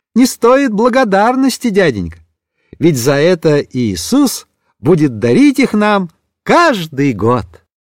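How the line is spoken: Cheerful small boy. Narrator (Russian): маленький Вашик весело заметил

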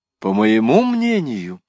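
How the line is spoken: Exclamation. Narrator (Russian): воскликнула Жанна де ля Тарм

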